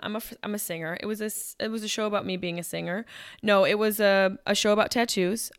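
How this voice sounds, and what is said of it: Hoarse, partly lost voice. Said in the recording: “my voice is kind of gone”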